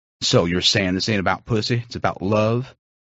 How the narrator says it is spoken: I chuckled uncomfortably

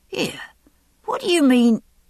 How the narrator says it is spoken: the man began, stopped, gasping

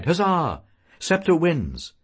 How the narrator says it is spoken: cried

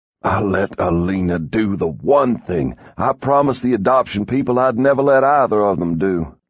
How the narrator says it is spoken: he said roughly

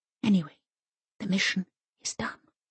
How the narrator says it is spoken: she says in a low voice

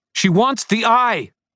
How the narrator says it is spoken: Lara screamed

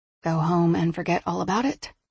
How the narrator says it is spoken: She murmured

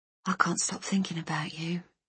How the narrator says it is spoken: said softly

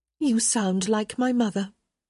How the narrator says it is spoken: Hyacinth said sweetly

